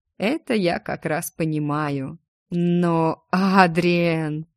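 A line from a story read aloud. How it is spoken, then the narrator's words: Near growl. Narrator (Russian): он почти зарычал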